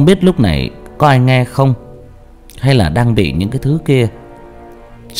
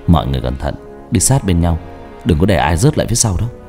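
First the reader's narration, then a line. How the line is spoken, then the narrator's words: Soft. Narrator (Vietnamese): Ba tôi khẽ nói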